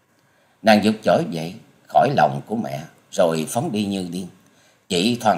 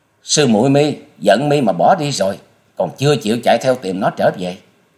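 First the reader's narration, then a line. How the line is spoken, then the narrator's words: Furious shout. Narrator (Vietnamese): Băng hồn tiên cơ tức tối thét lên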